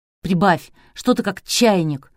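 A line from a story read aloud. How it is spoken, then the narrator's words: Spiteful. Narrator (Russian): Спортсмен злобно молвил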